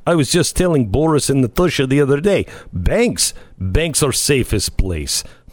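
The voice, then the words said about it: Put-on Russian accent. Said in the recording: “had this woman with this Russian accent”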